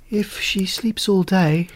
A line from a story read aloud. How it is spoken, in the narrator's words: said mournfully